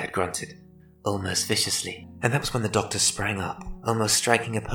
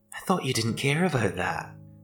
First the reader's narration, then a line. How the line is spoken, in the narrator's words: the doctor replied